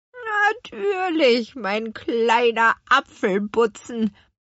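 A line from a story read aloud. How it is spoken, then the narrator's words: Grandmother croaking. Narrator (German): krächzte ihre Großmutter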